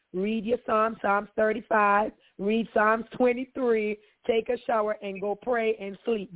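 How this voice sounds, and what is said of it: Voice sounds terrible. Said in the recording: “That's why my voice is just terrible, because I was dealing with this all day yesterday.”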